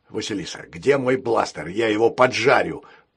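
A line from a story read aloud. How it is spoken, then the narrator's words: Angry growl. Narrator (Russian): прорычал разгневанный капитан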